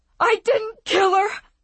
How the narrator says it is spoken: he screamed

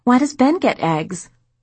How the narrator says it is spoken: Michelle whined

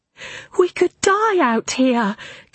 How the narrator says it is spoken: Katya cried the first time the planes came over

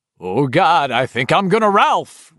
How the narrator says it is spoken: Richie said in an eerily exact imitation of Don Pardo

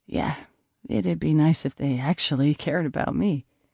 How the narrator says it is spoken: I muttered

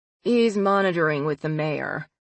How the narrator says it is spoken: Yoon said dryly

